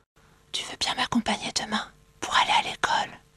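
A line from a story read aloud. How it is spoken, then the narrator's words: Whispered. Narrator (French): chuchote-t-il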